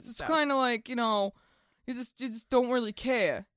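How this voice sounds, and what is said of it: Put-on Queens New York accent. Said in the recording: “really bad Queens accents ... that is not a Queens accent ... I think your Queens accent is better than your British accent.”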